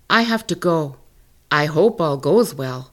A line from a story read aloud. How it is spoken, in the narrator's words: Coyote said